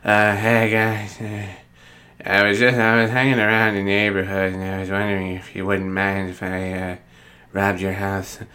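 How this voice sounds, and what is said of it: Imitates another person's voice. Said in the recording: “my attempt at an impression of Adam Sandler”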